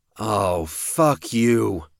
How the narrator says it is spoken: Cody snarled

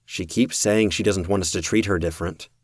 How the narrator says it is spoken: said, shrugging

